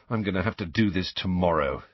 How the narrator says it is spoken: muttered

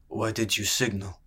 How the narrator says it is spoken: rumbled

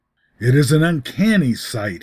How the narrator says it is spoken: muttered, and a shiver ran over his body

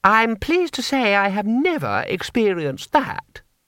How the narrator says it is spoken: said Lady Two Streams haughtily

